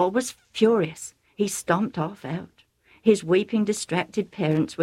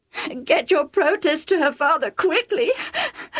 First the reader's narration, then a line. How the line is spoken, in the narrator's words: Rebecca sobbed